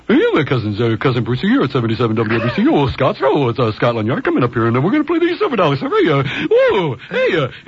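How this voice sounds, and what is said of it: Impression of radio DJ Cousin Brucey. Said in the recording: “Cousin Brucey ... that impression”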